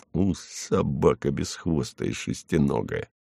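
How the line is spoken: Mutter. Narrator (Russian): пробормотав

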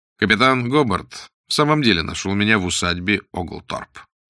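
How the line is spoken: Calm. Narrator (Russian): сказал Блад спокойно

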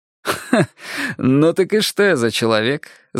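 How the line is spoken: Laughing. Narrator (Russian): засмеялся я

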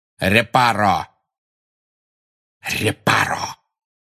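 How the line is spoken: Hissed. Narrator (Russian): прошипел Снег

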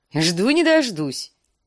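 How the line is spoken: Dwarf's giggle. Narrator (Russian): хихикнул карлик

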